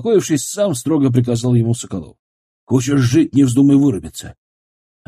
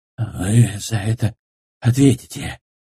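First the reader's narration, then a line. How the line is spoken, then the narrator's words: Pained, threatening, through teeth. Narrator (Russian): скрипя зубами и мучаясь от боли, угрожающе процедил Красков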